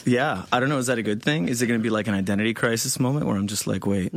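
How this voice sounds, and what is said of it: Slight foreign accent. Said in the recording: “you have that nice little accent that goes with it”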